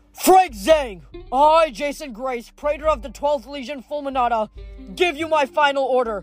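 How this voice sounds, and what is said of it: Shouted drill sergeant voice. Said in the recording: “shouted in his best drill sergeant voice”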